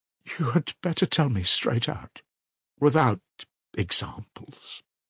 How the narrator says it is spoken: she begged, still more timidly and scarcely audibly

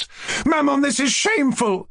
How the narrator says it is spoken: Aglaya cried aloud

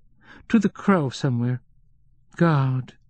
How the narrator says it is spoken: She spoke slowly and distinctly, and was probably dictating

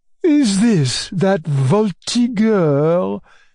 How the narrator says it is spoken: she drawled through her teeth

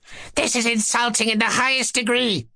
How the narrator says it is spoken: squeaked Ippolit

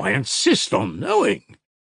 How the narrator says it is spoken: he exclaimed suddenly

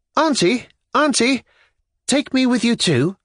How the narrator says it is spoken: the voice of Lizaveta Nikolaevna cried suddenly

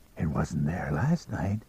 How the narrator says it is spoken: he whispered

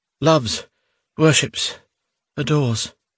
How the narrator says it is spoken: repeated with a sad sigh

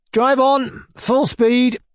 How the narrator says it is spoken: Mizinchikov shouted to the coachman

